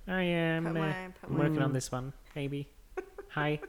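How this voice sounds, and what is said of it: Kermit-like imitation of another person. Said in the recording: “Is that Kermit the Frog? ... it is a little Kermit. ... my George Lucas impression is increasingly Kermit”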